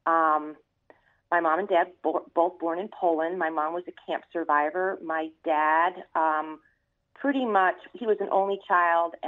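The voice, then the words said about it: Brooklyn accent. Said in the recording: “I was born in Brooklyn. You know, you can tell by my accent, right?”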